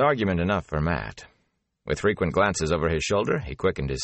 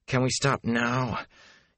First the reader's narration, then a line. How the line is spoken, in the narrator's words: he panted